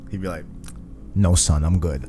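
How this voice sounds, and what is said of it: Deeper gruff superhero voice. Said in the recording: “my Captain America accent. ... I didn't change my voice. ... It's just deeper. ... Sound like Kratos.”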